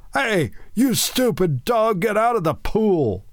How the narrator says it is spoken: he heard a sentry yell

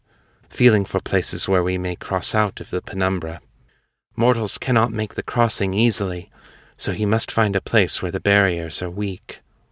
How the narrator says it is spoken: Xiong said, her voice low and reverent

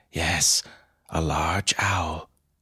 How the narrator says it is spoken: Fam sighed too and said

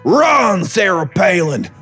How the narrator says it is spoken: Burl yelled between grunts

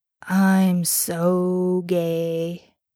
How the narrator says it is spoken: Dean groaned

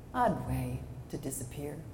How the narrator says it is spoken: He said softly

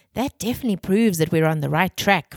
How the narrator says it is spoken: Ren exclaimed

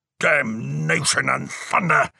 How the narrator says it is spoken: Jericho bellowed

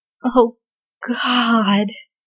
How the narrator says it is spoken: Bradley groaned again

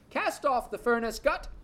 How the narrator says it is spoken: Kerrigan cried off

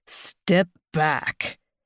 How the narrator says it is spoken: As my cock turns rock hard, I growl

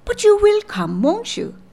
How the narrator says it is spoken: said Miss Ivors, eagerly

